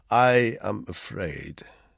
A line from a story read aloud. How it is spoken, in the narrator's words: he said gravely